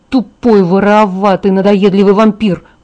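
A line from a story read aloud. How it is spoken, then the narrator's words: Growled. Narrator (Russian): прорычала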